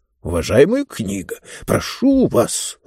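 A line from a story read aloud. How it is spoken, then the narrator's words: Irritated. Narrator (Russian): раздраженно начал было Мортур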